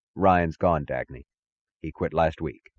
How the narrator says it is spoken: said, his voice as even as hers

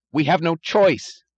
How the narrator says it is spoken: he cried

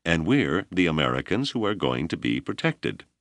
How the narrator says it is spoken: Janders replied blandly

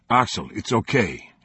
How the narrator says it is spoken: he said

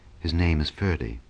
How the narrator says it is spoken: in a grave murmur

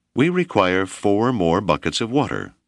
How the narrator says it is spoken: Whipple replied evenly

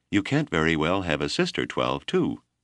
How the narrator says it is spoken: Mercy said brightly

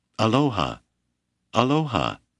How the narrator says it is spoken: she kept crying in her musical voice

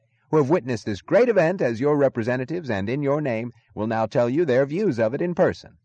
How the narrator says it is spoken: the announcer was yelling into the microphone

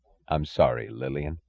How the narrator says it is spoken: he said, his voice low, a voice of sincerity and of suffering

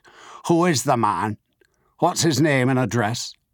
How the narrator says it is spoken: He asked in a suspicious provincial accent

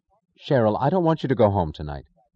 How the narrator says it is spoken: Prompted by a sudden causeless certainty, Dagny said sharply

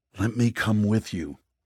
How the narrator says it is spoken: Eli pleaded

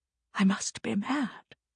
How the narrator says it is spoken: whispered

